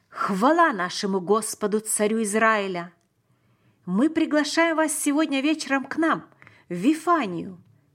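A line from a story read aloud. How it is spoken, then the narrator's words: Loud exclamation. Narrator (Russian): громко воскликнул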